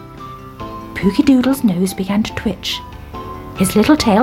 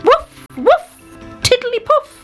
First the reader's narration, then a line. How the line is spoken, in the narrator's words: he shouted